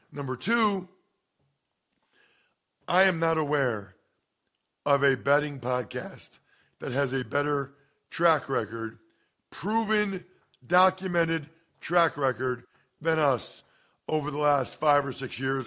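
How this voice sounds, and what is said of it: Slightly hoarse, croaky voice. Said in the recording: “I have a little bit of a frog in my throat.”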